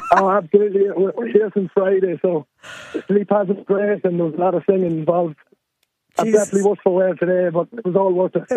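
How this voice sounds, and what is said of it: Audibly worn, strained voice. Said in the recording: “You can probably hear from my voice, probably enjoyed it a bit too much... certainly the voice is telling its own story”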